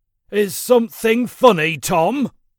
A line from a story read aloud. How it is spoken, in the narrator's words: he snapped, ready to strike with his stick